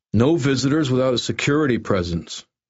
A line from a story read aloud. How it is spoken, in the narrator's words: Steve said firmly